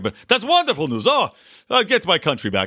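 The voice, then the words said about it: Count von Count style accent. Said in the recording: “I'm just going to do a random accent here... I'm going to make him sound like Count Von Count”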